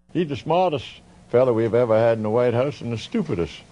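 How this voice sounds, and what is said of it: Rich southern accent. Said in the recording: “Hollings is known for a rich southern accent”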